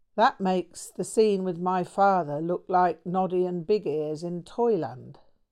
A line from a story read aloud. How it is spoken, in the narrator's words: sighed